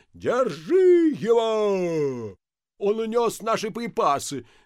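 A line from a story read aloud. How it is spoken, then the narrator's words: Yelled. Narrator (Russian): завопил Ипполит Матвеевич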